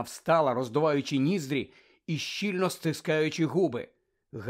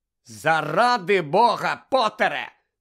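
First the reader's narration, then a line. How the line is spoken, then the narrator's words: Angry. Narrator (Ukrainian): сердито поправила окуляри професорка МакГонагал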